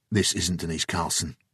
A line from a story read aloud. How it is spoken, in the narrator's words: Jason said quietly